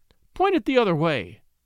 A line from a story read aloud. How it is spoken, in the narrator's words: cried the lady